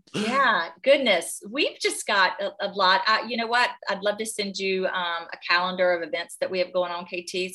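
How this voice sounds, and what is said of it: North Carolina Southern accent. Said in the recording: “North Carolina ... They can't tell from my accent, right?”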